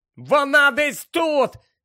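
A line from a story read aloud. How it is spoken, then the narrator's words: Shouting. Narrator (Ukrainian): закричав їй Гаррі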